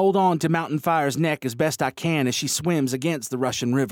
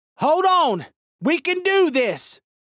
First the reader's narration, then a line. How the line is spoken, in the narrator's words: shout, my voice drowned out by the noise